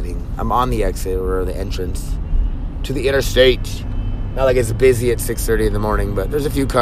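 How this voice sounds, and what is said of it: Usual voice. Nothing is said of it.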